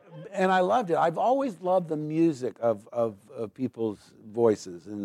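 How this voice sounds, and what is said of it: Usual voice. Nothing is said of it.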